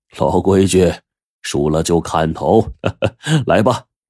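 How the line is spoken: Hearty laugh. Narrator (Chinese): 杜如生就哈哈一笑

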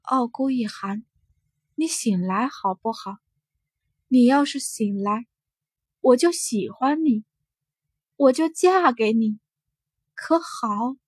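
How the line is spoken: Dazed murmuring. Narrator (Chinese): 他怔怔地 喃喃自语

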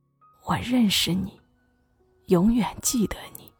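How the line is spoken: Old man murmuring. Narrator (Chinese): 老爷爷喃喃自语的说了一句

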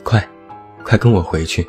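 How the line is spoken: Out of breath, urgent. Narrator (Chinese): 小羊跑得上气不接下气 气喘吁吁地说

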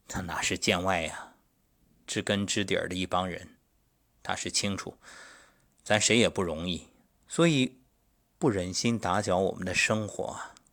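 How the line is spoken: Calm, detached. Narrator (Chinese): 那位老友淡淡说了一句

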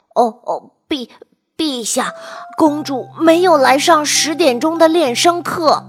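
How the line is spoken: Terrified trembling stammer. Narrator (Chinese): 音乐老师怕得要命，他颤抖地，结结巴巴地说

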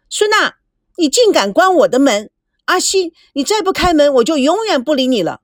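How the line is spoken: Shouting. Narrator (Chinese): 赵美娇喊着

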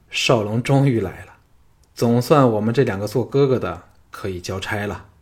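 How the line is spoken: Sighing. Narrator (Chinese): 昌平君叹道

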